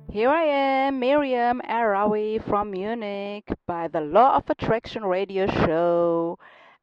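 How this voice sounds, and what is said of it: German accent in English. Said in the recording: “my German accent sounds a little bit uh, funny ... my English is not so uh, perfect”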